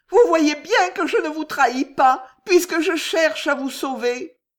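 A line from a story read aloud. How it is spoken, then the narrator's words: Sobbing. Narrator (French): sanglota Juliette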